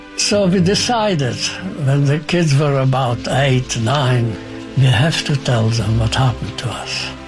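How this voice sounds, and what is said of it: Speaks with an unusual accent. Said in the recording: “why do you speak with a funny accent?”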